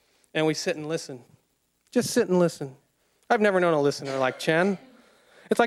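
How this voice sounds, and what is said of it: Usual voice. Nothing is said of it.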